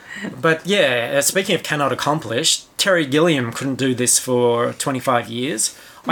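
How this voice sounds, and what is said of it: Australian accent. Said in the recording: “my coarse Australian accent”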